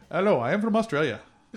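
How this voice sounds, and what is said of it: Poor attempted Australian accent. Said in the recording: “I have a great Australian accent... That is not an Australian accent.”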